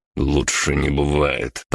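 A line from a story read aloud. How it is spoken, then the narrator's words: Grumbling. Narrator (Russian): проворчал я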